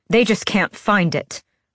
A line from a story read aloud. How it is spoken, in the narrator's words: I said, my voice turning sharp